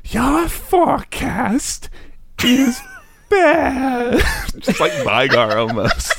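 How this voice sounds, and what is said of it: Loud whispered impression of Janna. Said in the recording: “do an impression of old Janna ... I'm whispering loudly. ... VO impression”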